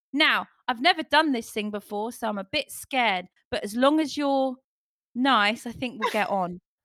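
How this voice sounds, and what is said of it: Put-on English accent. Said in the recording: “This is my English accent that I like to do sometimes ... I'm not really English. I'm actually American, but this is my English accent.”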